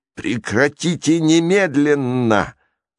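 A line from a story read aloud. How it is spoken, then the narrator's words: Growled. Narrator (Russian): прорычал он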